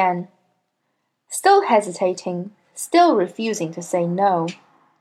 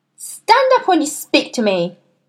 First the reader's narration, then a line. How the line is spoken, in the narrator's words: snapped